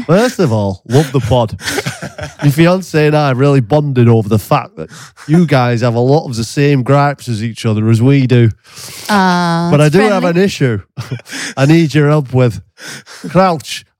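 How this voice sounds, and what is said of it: Attempted Burnley accent slipping into Scouse. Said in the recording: “do it in a Burnley accent ... Don't think I can do Burnley, really. ... Have I gone scouse there?”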